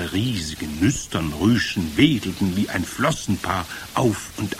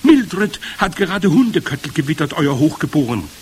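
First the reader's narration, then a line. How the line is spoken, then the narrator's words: Calling upward. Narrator (German): rief jemand zu ihr empor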